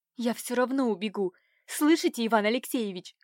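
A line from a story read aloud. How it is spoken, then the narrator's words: Angry, through gritted teeth. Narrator (Russian): Процедила Катюша в гневе, ошалев от его поведения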